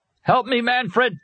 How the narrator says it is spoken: he shouted down deep inside himself

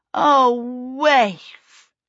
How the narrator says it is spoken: Charmaine wailed

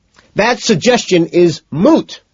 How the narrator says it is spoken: McDermott screams

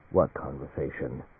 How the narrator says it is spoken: Coldly, Alan Fane said

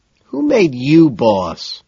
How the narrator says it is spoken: McDermott whines

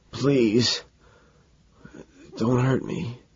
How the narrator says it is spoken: the dog whimpering, he croaks

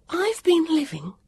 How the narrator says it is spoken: Vivian panted to herself

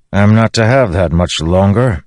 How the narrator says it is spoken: Dalinar grumbled

